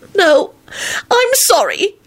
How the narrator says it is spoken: she wailed and blubbered until the front of her shirt was wet

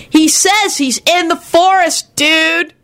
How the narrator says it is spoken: Kenny shouted helpfully into his ear

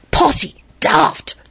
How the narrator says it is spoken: Tim hissed back knowingly

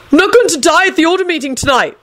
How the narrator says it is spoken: Neville yelled out suddenly

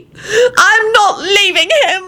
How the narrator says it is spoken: Elizabeth screeched defiantly

